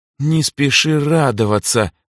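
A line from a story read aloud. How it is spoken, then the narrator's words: Stubborn through-teeth speech. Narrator (Russian): упрямо сжав губы, процедила Эльза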